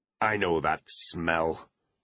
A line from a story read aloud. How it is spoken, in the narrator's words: Butler realised